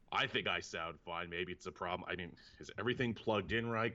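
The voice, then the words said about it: Unusually deep, sick-sounding voice. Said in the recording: “my voice is sounding unusually deep... Sounds like you're sick.”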